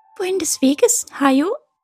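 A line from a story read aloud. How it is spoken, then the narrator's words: Squeaky voice. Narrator (German): piepste sie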